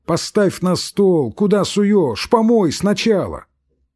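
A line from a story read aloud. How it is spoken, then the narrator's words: Shouting. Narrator (Russian): Самойленко кричал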